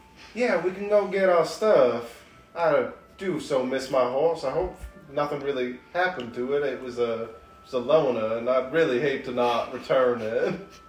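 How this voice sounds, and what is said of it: Southern twang character voice. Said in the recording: “character voice ... I'm so southern. Kind of a twang. Southern.”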